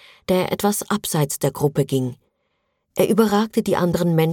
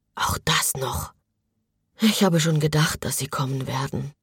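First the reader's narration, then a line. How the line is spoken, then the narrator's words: Quiet reply. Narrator (German): antwortete ebenso leise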